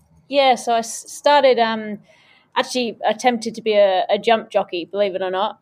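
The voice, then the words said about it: English accent. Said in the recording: “through her accent, is not from here. So grew up in Oxfordshire.”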